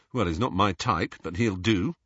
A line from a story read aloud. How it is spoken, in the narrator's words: said Harry